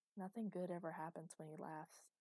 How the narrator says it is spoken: she repeated quietly to herself, feeling colder than usual

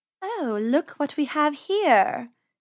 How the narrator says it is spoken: she purred

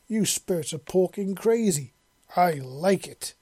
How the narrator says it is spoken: she roared

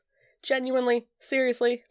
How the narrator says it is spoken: Louis asks again

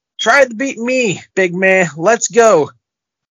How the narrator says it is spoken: Dijakovic begs Omos to come back and yells

